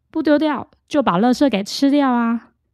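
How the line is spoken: Insistent urging. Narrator (Chinese): 一直叫他吞下去

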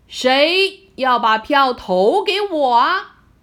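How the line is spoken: Loud group chorus. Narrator (Chinese): 大家都会一起大声的说

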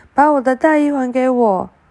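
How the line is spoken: Devil shouting. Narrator (Chinese): 魔鬼他叫喊着

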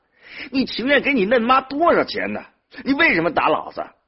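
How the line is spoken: Shouting curses. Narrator (Chinese): 萝卜花捂着腮帮子，嘴里嚷着骂道

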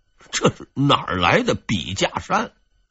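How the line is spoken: Gloomy muttering. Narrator (Chinese): 知府大人哎，郁闷的走了，走前还嘀咕了一句

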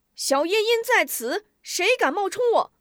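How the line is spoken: Loud shout. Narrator (Chinese): 有一人高喊

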